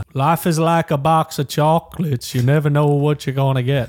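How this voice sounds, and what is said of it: Decent Forrest Gump impression. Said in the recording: “Is that your Forrest Gump impression? ... It's not bad. ... That was decent.”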